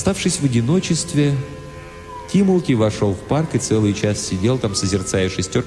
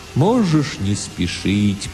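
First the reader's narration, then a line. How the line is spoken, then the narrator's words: Strange, sad, distant voice. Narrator (Russian): произнес Тимулки очень странным, грустным, далеким, философическим голосом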